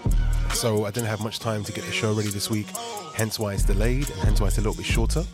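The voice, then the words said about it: Sick, unwell-sounding voice. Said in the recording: “you can probably tell by my voice, I've been really under the weather ... contracted COVID”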